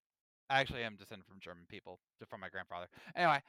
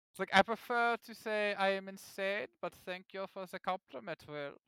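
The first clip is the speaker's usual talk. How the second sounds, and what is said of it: Put-on German accent. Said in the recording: “I did that in a German accent”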